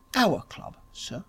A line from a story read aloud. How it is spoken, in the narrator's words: murmured Smith